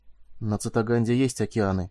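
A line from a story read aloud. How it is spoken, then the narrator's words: Whisper. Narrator (Russian): прошептал он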